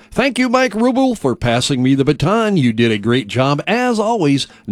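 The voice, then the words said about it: Generic radio announcer voice. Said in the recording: “sometimes known as radio's generic radio voice.”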